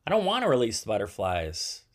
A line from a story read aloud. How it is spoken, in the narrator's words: said David